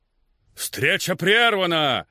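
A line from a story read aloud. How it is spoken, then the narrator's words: Shouted out. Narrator (Russian): выкрикнул сэр Лотиан Хьюм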